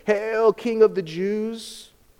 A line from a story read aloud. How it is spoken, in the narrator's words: they mocked him, saying